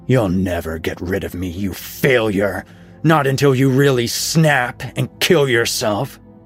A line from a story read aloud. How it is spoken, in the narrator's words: A horrible voice barked at her within her brain